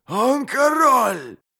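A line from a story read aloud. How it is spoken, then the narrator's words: Booming voice. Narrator (Russian): прогремел Хурик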